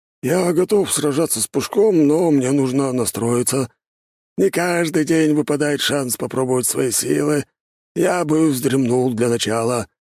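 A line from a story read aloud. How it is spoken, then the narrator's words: Wheezed. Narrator (Russian): просипел Карелин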